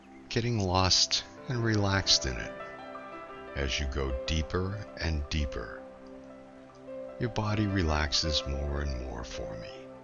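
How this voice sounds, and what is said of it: Deep, calm voice. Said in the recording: “my deep voice”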